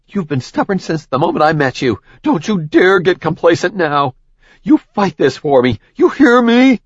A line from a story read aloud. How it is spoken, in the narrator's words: he sputtered through more blood